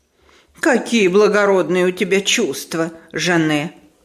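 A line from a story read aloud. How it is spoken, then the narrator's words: Sarcastic remark. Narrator (Russian): язвительно заметила мадам Резо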